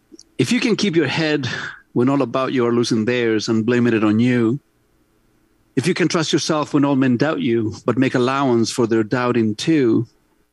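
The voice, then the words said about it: Accent while reading aloud. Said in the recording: “my accent that comes out when I read”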